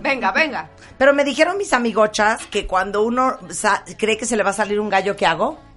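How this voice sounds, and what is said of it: Hoarse voice. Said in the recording (Spanish): “estoy ronca”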